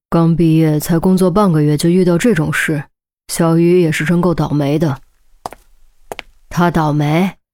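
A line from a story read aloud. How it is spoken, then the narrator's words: Sighing. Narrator (Chinese): 周丽君叹道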